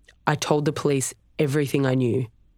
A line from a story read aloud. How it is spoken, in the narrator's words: he said